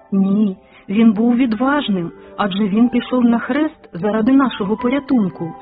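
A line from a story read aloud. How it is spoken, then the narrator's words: Plain. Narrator (Ukrainian): сказав Олег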